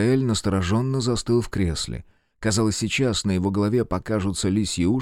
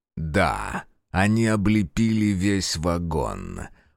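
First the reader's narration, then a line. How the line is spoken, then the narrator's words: Growl. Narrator (Russian): прорычал Фергус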